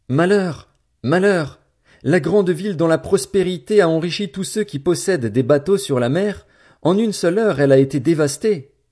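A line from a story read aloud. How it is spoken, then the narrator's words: Wailing mournful crowd. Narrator (French): ils criaient, dans les pleurs et le deuil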